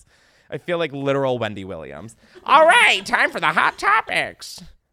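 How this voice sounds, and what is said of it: Imitates another person's voice. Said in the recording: “that was my Wendy Williams impression”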